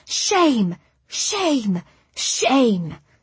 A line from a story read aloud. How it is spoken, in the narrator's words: banged them together and cried